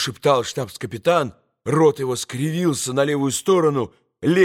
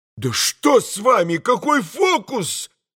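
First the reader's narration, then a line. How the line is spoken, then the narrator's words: Frightened shout. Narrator (Russian): прокричал тот уже совсем в испуге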